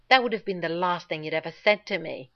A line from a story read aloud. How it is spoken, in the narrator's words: John snarled, without realizing he was going to, right into Rodney's face